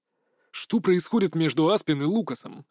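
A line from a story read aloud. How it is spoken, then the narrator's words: Angry question. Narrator (Russian): зло спрашивает он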